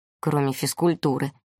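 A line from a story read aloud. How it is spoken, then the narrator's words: Grumble. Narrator (Russian): проворчал кто-то рядом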